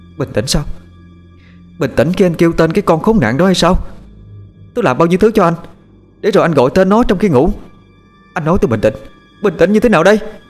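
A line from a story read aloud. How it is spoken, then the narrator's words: Loud scream. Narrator (Vietnamese): Một tiếng hét vang lên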